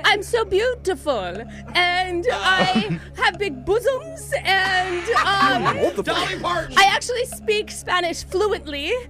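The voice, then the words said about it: Sofia Vergara impression. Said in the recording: “Your impersonation ... Sofia Vergara ... Yes.”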